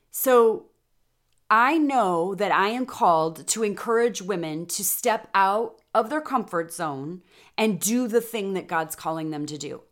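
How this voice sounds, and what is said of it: Excited, energetic voice. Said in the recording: “I get so jazzed up. As you can probably tell in my voice right now”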